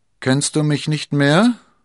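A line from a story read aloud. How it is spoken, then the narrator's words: Mocking question. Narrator (German): fragte Athos spöttisch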